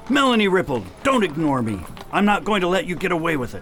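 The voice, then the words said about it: Yelling loudly. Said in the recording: “I'll stop yelling.”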